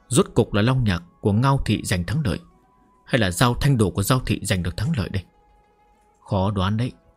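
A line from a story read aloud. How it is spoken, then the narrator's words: Muttering. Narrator (Vietnamese): Tộc trưởng Ba Thị lẩm bẩm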